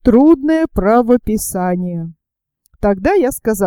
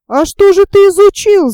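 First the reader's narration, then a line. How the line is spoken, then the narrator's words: Shouting. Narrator (Russian): закричал я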